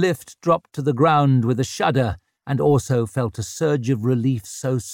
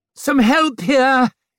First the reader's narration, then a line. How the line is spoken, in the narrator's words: he called out